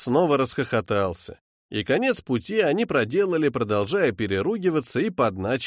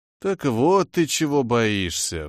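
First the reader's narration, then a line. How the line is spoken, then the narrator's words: Sighing. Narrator (Russian): вздохнул Деггер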